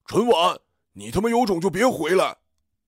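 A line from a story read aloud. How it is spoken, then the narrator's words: Shouting from behind. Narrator (Chinese): 身后传来于二哥的大叫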